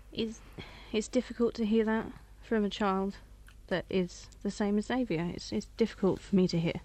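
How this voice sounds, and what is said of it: Emotional, shaky voice. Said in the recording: “I'm a bit emotional. ... What's made you feel so emotional?”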